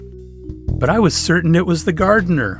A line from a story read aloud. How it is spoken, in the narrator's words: shouted the maid